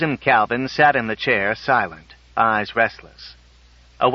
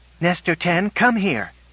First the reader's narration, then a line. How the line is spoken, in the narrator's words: she cried